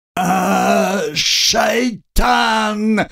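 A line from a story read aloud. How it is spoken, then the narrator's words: Yell from man lying down. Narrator (Russian): заорал лежащий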